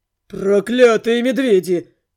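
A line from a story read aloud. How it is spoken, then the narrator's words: Growl. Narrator (Russian): рычал Белый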